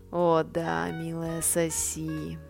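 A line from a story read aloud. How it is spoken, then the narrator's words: Moaning. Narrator (Russian): простонал он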